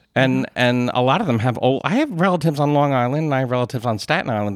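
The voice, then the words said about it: Philadelphia accent. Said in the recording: “I love the Philly accent. I do. It's hometown. It's my accent... It's an unattractive accent”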